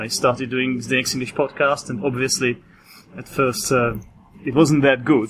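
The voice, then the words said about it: Non-native speaker with British-style accent. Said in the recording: “You, you, you're a non-native ... I guess it's obvious from my accent ... your accent is, is really great. I, I don't know if I could distinguish like if you were a native ... you speak British, right? ... trying to imitate British accent”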